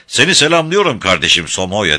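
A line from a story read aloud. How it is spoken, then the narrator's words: Loud far-carrying shout. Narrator (Turkish): diye bağırdı sesini 300 metre ötesine duyurarak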